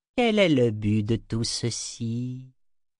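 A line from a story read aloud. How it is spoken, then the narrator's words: Plain. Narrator (French): demanda-t-elle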